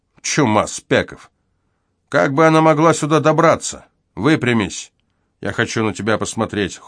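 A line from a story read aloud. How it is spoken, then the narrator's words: Cold. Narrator (Russian): холодно добавил он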